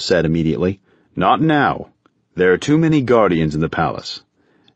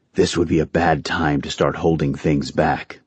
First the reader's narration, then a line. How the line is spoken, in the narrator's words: Grandmaster Endros said softly